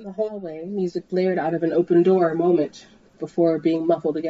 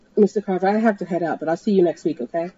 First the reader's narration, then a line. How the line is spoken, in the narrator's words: she said quickly